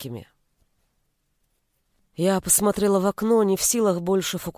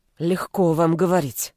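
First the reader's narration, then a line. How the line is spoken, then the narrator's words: Through gritted teeth. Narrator (Russian): процедила я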